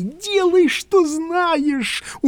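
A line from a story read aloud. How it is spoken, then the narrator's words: Dejected moan. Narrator (Russian): уныло простонал я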